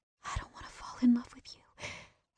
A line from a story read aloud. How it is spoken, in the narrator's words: I whispered